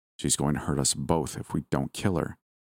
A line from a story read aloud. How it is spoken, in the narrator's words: he said quietly